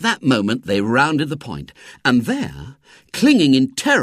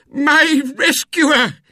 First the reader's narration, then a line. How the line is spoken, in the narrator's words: cried